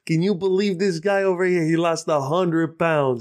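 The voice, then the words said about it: Put-on New York accent. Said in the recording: “I don't have a New York accent ever, but when I talk to Anthony, I'm like”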